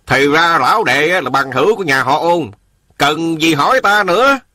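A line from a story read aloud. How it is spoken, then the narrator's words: Cold, scoffing. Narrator (Vietnamese): Chủ tiệm cười nhạt nói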